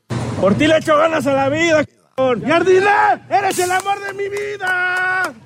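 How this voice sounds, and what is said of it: Shouted Mexico City accent. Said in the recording (Spanish): “acento chilango ... en su máxima expresión ... El alargamiento de la última vocal con cambio de tono ... acento chilango puro, absoluto ... cuando lo gritas se oye mejor”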